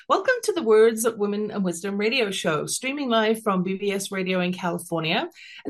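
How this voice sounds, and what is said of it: English London accent. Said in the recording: “originally from London, England, as you can tell from my accent”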